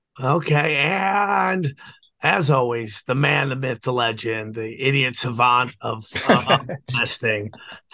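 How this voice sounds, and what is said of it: Hoarse, strained, nearly lost voice. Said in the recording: “I lost my voice.”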